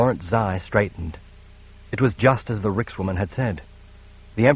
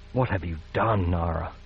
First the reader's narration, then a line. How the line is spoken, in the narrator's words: he whispered, his heart sinking